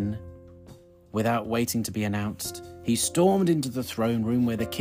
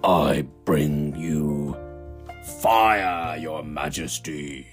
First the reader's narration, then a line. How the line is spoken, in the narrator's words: bellowed the enormous dragon